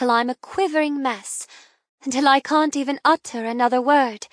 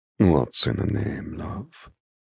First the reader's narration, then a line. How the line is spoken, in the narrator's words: He murmurs lovingly